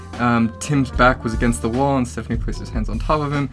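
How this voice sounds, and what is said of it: Reading aloud very fast. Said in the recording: “I'm reading it really fast”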